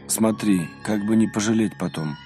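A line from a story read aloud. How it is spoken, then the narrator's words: Tired farewell. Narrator (Russian): На прощание он устало сказал отцу Рафаилу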